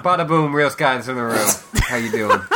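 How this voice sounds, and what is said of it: Exaggerated New York accent. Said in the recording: “the rat has a rat maze in New York accent”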